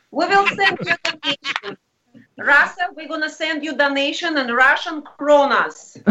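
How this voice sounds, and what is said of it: Put-on Russian accent. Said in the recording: “That sounded so Russian.”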